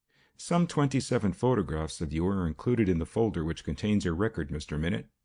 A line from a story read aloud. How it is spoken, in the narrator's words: said the little investigator calmly